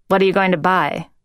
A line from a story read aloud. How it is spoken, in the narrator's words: Liv asked